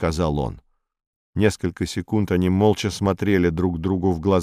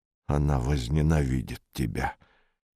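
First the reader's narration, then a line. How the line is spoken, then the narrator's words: Quiet. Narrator (Russian): тихо сказал Габа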